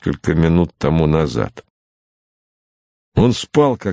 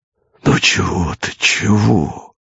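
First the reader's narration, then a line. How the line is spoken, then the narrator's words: Muttering. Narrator (Russian): бормотал Богомолов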